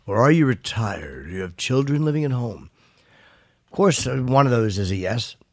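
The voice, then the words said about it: Sultry radio announcer voice. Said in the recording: “It's my new sexy radio voice.”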